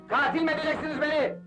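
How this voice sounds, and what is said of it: Shouting. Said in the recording (Turkish): “Bağırma öyle!”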